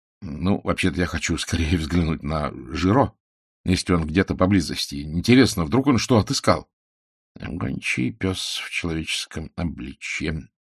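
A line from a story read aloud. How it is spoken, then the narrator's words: Mutter. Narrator (Russian): пробормотал Пуаро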